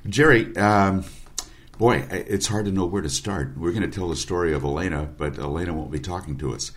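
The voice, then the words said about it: Slightly rough voice. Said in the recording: “My voice is a little rough. I've got some allergy issues”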